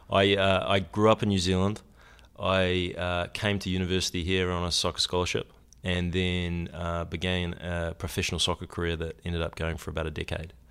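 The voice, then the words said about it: New Zealand accent. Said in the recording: “you're a Kiwi, you're from New Zealand”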